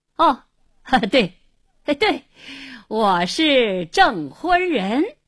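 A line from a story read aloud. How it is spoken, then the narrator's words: Forced hearty laughter. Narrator (Chinese): 看他故意哈哈大笑，连声说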